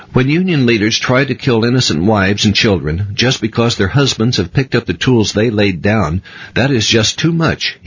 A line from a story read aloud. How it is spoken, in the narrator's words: he exclaimed with heat